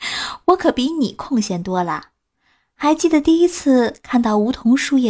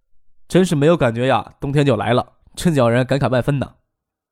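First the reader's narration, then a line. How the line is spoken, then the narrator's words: Laughing. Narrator (Chinese): 张可笑着跟李星宇说道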